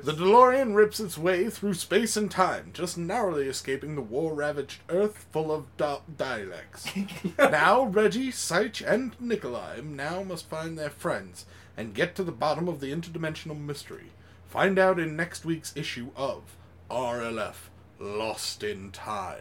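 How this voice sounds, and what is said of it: Dramatic narrator voice. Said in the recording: “who's got the best narrator voice? ... That's good. Very good.”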